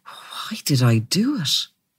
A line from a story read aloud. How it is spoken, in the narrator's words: He lowered his head and murmured